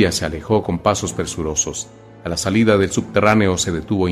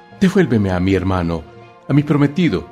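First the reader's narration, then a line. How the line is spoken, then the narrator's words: Sobbing. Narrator (Spanish): sollozó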